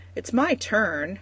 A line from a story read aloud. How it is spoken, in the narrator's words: Marika protests, bouncing impatiently